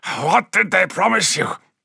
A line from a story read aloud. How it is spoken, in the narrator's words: snarled Shaban